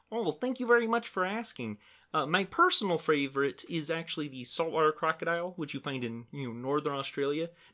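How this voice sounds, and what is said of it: Kermit the Frog character voice. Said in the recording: “do your Kermit voice”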